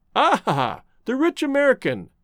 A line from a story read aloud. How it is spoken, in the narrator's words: chuckled the artist